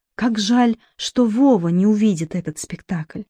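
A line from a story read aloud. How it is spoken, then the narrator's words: Barely audible. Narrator (Russian): еле слышно проговорила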